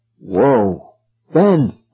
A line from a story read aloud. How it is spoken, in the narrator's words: I gasped